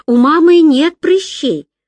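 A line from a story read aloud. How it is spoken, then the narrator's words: Exclaiming. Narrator (Russian): воскликнула Люся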